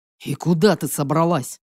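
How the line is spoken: Growling demon. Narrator (Russian): Буквально прорычал мне в спину белобрысый демон

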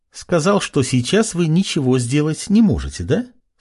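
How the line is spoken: Cheerful giggle. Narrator (Russian): весело хихикнула

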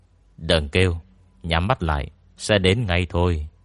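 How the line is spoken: Cold voice. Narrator (Vietnamese): giọng lạnh lùng của Ngô Miễn truyền tới

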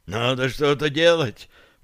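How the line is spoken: Hoarse rasp. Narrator (Russian): прохрипел Гарри

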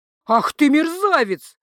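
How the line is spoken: Official's furious roar. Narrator (Russian): взревел чиновник

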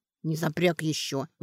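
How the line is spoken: Hostile grumble. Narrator (Russian): враждебно пробурчала она

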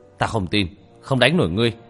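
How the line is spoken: Murderous shout. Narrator (Vietnamese): Hai mắt lóe lên sát ý vô cùng mãnh liệt, quát lên một tiếng

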